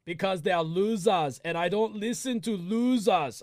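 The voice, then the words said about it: Poor Arnold Schwarzenegger impression. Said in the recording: “I don't do a good Arnold impression.”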